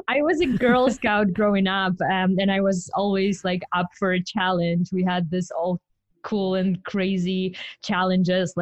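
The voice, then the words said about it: Ukrainian accent. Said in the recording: “I'm from Ukraine, so you'd better get used to my accent.”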